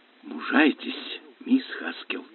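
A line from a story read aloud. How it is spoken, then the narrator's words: Whisper. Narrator (Russian): прошептал Лестер Смит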